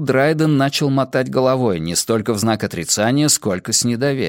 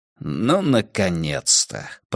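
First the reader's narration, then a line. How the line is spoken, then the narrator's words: Muttering. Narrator (Russian): пробормотал Касс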